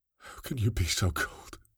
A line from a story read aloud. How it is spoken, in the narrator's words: Kinney asked quietly, his voice shaking without malice